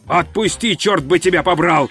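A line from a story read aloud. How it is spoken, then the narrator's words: Yelled. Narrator (Russian): завопил он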